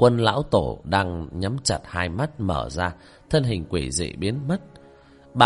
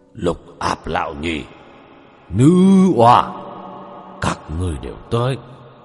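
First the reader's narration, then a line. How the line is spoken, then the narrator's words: Hoarse, cold, sneering. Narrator (Vietnamese): Khóe miệng của hắn chứa đựng một nụ cười đến buồn nôn, âm thanh khàn khàn mà lạnh giá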